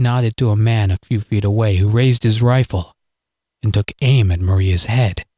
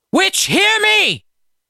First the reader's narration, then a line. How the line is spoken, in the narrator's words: Nana bellowed again